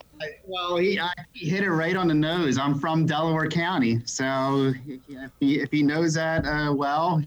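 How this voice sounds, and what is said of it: Delaware Valley (Philadelphia-area) accent. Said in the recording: “you have a Delaware Valley accent”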